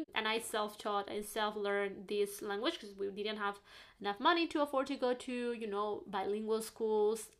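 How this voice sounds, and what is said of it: Spanish accent in English. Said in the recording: “if you hear this accent, is coming from Spain”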